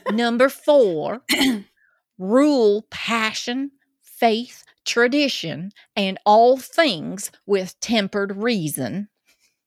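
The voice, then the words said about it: Clear put-on Georgia accent. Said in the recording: “through the Georgia accent ... Yes, you're very clear.”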